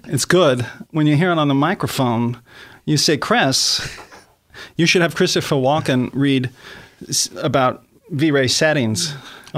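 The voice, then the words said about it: Christopher Walken impression. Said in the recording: “I'm doing the walking impersonation.”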